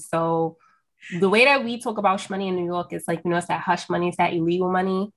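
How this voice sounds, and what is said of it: New York accent. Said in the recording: “I'm from New York, if y'all can't tell from my accent right now.”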